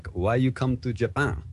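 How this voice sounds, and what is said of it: Put-on Jamaican accent. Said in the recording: “What accent was that there? That was like a Jamaican in Japan. ... Yeah, yeah, it's Jamaican Japanese.”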